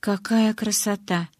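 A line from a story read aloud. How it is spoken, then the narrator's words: Whisper. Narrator (Russian): прошептала я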